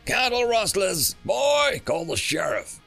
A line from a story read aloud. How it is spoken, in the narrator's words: the human yelled